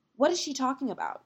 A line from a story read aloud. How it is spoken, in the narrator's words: she said sharply